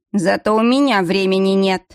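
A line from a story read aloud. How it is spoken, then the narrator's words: Man's growl. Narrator (Russian): зарычал мужчина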